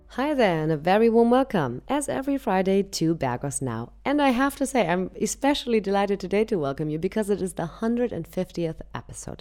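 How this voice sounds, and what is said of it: Slightly raspy voice. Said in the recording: “my voice is slightly raspy”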